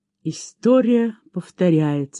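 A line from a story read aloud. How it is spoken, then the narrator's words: Plain. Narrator (Russian): сказала она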